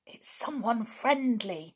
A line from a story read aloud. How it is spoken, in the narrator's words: she whispered